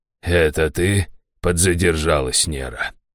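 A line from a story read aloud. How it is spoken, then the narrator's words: Smirking grunt. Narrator (Russian): хмыкнул Раштау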